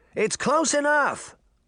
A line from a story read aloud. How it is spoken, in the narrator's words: the children shouted